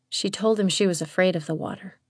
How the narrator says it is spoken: Andrea said quietly

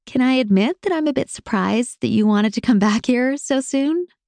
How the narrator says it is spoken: laughed

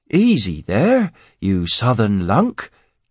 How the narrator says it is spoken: Cade said, his voice now genial and friendly

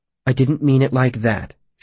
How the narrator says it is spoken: she said quickly

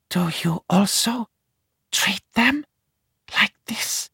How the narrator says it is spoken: she whispers and starts to sob

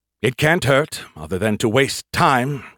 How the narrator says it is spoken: he sighed

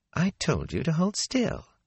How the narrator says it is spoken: she said calmly

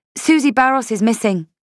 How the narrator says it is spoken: I said quickly

